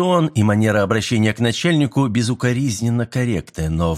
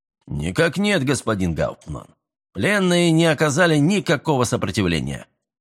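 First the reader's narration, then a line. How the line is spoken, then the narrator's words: Dry military report. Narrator (Russian): сухо отрапортовал обер-лейтенант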